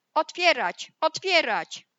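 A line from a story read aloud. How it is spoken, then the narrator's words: Wolf shouting. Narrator (Polish): krzyczał wilk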